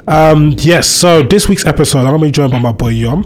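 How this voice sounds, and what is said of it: Voice sounds rough and unwell. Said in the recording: “It's been a rough week, as you can hear by my voice. It's been rough.”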